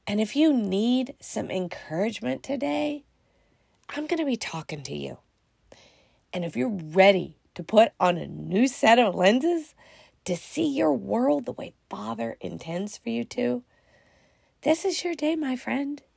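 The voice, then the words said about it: Deep, allergy-affected voice. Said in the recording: “my voice is a little, less than. I almost sound like I'm getting that deep, sexy voice. ... It's just allergies.”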